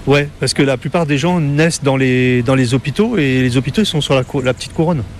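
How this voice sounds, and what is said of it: Parisian French accent. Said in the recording (French): “Vous n'avez pas l'accent créole quand vous parlez ... j'ai gardé mon accent parisien quand même”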